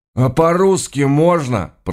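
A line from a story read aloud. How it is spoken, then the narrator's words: Groaning. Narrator (Russian): простонал кто-то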